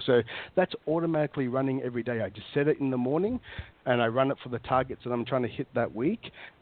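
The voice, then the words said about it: Australian accent. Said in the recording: “Are you hamming up your Australian? Are you hamming up your Australian accent this time? ... Do I sound more Australian? ... Yeah, you do.”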